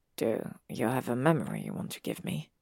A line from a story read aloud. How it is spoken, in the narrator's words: He asks quietly, careful to sound calm